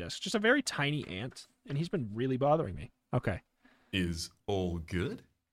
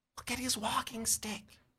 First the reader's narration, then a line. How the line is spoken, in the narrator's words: Corey whispers